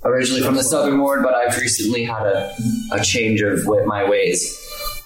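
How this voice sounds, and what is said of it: Strained put-on character voice. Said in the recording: “My character voice hurts me sometimes. ... You don't need to do a character voice that hurts you.”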